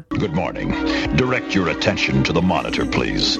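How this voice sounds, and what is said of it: Extremely deep male voice. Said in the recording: “he's also got the deepest voice ever heard on G.I. Joe ... this dude's got a deep voice ... that's a little bit of old Barry White action ... It's the deepest voice ever.”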